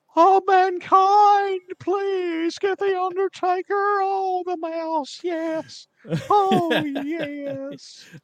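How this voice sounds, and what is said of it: Paul Bearer impression. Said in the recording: “Now I could do his manager, Paul Bearer ... That's a brilliant impression.”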